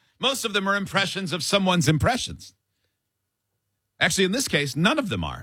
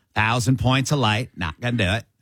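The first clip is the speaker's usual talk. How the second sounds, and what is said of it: Dana Carvey's George Bush impression. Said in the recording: “The old Dana Carvey, George W. Bush.”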